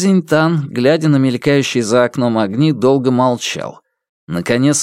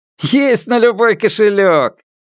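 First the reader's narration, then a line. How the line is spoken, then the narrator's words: Cheerful laughing. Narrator (Russian): Водитель весело рассмеялся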